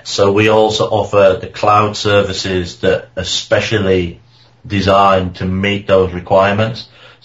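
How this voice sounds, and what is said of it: Non-American accent. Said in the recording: “as you can tell by my accent, I'm no U.S. citizen”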